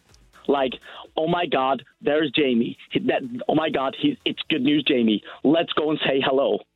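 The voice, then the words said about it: Put-on American accent. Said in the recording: “my American accent”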